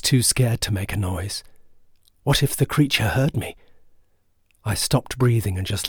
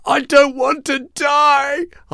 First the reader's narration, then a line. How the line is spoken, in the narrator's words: screamed in agony